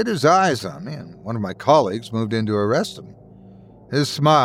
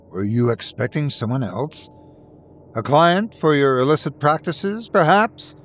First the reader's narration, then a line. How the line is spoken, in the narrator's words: I scoffed